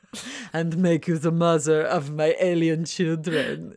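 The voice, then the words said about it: Unidentifiable put-on seductive accent. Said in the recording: “I don't know what accent that was, but it sounded hot”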